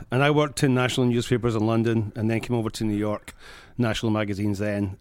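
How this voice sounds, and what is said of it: Scottish accent. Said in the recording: “that accent is a New Jersey accent ... from Scotland”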